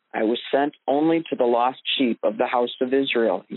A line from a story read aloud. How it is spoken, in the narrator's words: he said